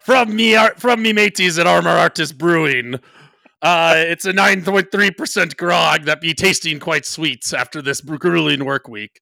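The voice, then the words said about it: Put-on pirate accent. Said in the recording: “what would you say my best/favorite accent work is? ... what's the one I'm actually good at? ... A pirate?”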